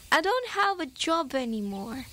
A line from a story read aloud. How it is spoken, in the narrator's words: They both laughed and Helen said